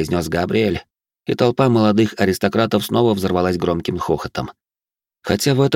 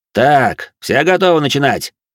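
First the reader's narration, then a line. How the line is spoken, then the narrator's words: Loud question. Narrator (Russian): громко спросил Габриэль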